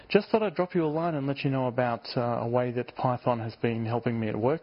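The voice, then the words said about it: Australian accent. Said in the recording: “I do have an Australian accent.”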